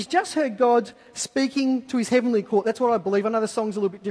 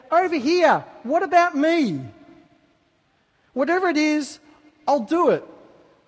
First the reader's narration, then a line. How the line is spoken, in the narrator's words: called out